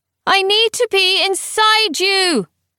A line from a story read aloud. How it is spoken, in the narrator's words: Hera bellowed over the din